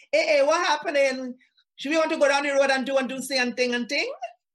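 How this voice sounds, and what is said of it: Trinidadian accent. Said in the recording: “I had a Trinidadian accent and I used to talk with my Trinidadian accent.”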